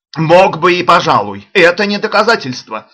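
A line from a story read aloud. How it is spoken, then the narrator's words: Furious shout. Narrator (Russian): закричал в ярости Саммерли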